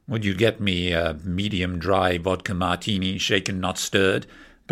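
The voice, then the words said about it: Timothy Dalton impression. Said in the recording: “I can do Timothy Dalton, too.”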